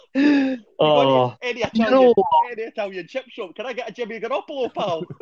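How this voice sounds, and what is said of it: Put-on Scottish accent. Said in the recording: “try saying Jimmy Garoppolo in a Scottish accent.”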